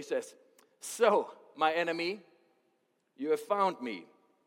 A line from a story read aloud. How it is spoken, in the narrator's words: Ahab exclaimed to Elijah